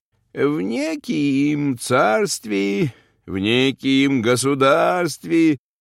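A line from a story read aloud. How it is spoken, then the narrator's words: Wistful singsong storytelling. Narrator (Russian): подгорюнилась одной рукой и начала говорить, немного нараспев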